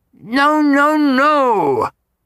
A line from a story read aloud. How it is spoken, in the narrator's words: cried Vaughn in high glee